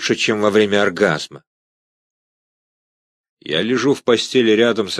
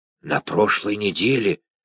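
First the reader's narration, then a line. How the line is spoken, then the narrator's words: Sheriff whispering again. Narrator (Russian): снова зашептал шериф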